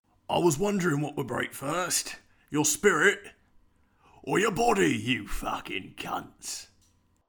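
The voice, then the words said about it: Poor imitation of another person's voice. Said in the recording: “have you learnt how to do a Bronson accent yet? ... I'm going to assume that was shit.”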